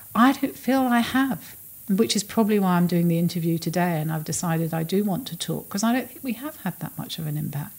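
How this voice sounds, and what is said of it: Emotional, choked-up voice. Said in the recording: “I'm getting emotional now”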